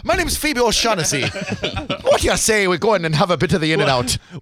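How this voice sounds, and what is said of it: Put-on Irish accent. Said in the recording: “Did she have an Irish accent? ... Yeah, she tried.”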